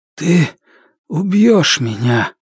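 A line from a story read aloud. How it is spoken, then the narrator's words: Hoarse wheeze. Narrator (Russian): Он прохрипел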